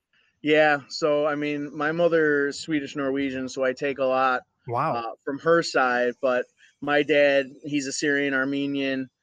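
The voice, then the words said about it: Strong multi-generation Chicago accent. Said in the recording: “a more Chicago accent than I do ... you definitely sound like a multi-generation, you know, been here for a long time, Chicagoan”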